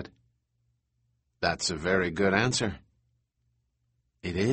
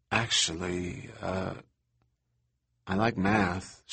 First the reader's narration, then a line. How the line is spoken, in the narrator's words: she said in a sort of guilty voice